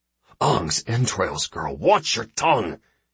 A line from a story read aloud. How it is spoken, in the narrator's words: hissed Chindelin